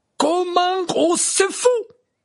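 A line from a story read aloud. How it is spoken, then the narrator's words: Exclaimed. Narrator (French): s'écria Madame Maxime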